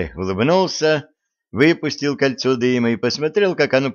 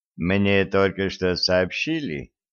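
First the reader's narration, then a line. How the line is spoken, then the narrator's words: Very quiet. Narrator (Russian): очень тихо сказал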